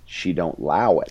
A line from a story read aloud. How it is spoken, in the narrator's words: Morgan said